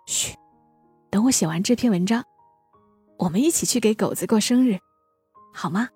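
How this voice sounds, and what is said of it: Soft whispered voice. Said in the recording (Chinese): “我笑着把手放在嘴边，小声的说”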